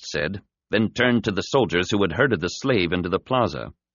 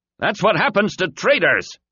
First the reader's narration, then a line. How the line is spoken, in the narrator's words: shouting to the slaves who had gathered round the plaza